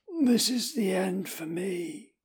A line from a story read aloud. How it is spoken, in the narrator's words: gasps